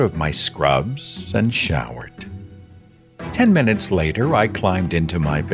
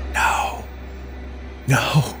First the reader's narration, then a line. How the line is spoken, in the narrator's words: she had gasped weakly